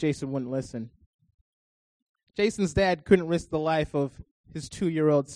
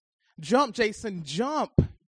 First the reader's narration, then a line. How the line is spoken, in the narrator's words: Jason's dad pleaded